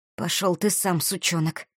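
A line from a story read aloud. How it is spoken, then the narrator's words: Hoarse breathless rasp. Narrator (Russian): прохрипела я в ответ, по-прежнему задыхаясь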